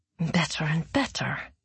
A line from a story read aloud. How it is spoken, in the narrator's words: muttered Zoya